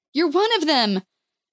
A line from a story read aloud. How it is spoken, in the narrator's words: cried